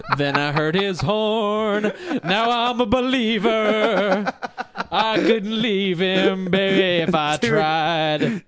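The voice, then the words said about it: Imitates another person's singing voice. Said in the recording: “my Neil Diamond impression”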